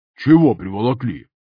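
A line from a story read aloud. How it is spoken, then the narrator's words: Grumbling. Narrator (Russian): Пробурчал дядюшка Оф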